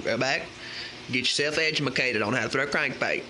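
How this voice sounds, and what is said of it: Put-on accent. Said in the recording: “I'm going to keep the accent.”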